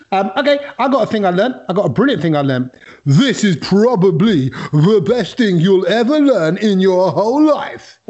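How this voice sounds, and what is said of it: Imitates another person's voice. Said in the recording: “Who do I sound like? ... The big brother, mate. ... That's my impression of Kedge.”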